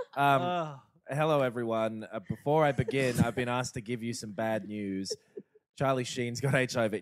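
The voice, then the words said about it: Put-on voice imitating younger self. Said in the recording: “this is how I acted then. I'm doing a voice.”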